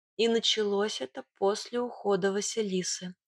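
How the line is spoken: Quiet. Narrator (Russian): тихо добавила я

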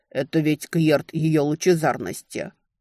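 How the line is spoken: Frowning warrior's deep voice. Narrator (Russian): Один из воинов нахмурился и пробасил

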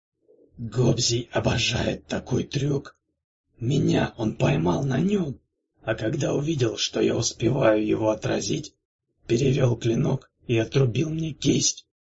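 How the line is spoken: Hoarse rasp. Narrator (Russian): прохрипел он

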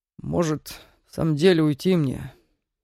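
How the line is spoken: Asked through clenched teeth. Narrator (Russian): наконец сквозь зубы спросил он

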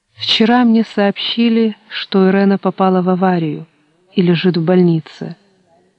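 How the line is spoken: Muffled, flat. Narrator (Russian): глухо произнесла Маргарита

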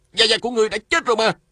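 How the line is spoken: Jumping up, shouting. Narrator (Vietnamese): Lê Cường nhảy bật dậy la lên

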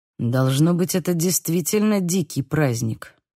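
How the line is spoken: Muttering. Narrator (Russian): пробормотал Лука

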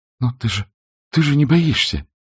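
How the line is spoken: Exclaiming. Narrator (Russian): воскликнула она

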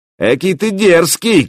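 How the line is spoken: Shouting. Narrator (Russian): крикнул

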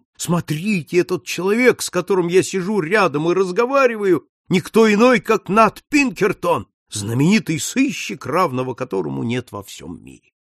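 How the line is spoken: Proud shout. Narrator (Russian): Ему страшно хотелось с гордостью крикнуть всем встречным

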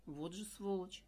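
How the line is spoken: Agitated. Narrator (Russian): взволнованно произнес он

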